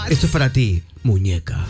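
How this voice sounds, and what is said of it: Deep radio announcer voice. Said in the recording (Spanish): “¿tiene voz de locutor?”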